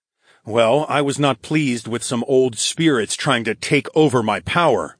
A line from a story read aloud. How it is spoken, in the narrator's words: growled